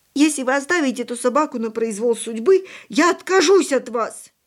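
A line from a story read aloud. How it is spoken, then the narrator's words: Grief-stricken shout. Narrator (Russian): Не помня себя от горя, крикнула Яночка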